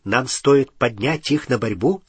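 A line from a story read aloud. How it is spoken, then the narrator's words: Plain. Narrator (Russian): спросил Гарри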